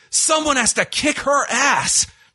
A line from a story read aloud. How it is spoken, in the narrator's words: Michael Cole just screams